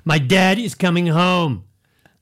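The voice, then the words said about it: American accent. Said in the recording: “it was an American accent too.”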